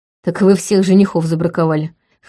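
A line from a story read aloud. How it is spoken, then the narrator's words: Smirking snort. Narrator (Russian): хмыкнул Вейтон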